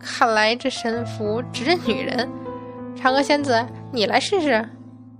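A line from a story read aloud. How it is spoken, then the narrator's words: Tentative laughing. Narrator (Chinese): 孙悟空口中却试探着笑道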